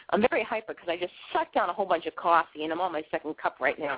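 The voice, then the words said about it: Boston accent. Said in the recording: “I have this weird accent. I'm from Boston, and I have a Bostonian accent.”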